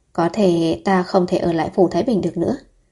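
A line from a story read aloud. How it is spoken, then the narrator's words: Sigh. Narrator (Vietnamese): Vũ Thị An thở dài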